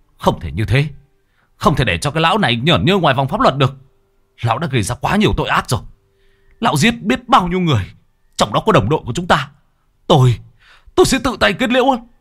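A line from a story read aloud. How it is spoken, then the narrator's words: Angry. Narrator (Vietnamese): Tức giận, Vũ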